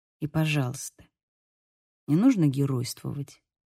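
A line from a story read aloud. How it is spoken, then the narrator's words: Quiet. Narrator (Russian): произнес он тихо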